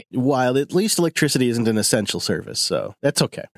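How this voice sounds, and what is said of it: Deadpan sarcastic delivery. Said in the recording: “Was that sarcasm? You said it's so deadpan. ... Yeah, that was sarcasm.”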